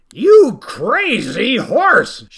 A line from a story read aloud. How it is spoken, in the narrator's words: shouted the farmer